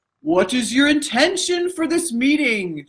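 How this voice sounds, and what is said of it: Imitates another person's voice. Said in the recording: “I'm going to impersonate Oprah... That was my Oprah impersonation.”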